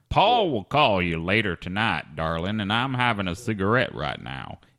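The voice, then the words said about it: Put-on Southern accent. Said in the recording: “you sold the southern accent really well”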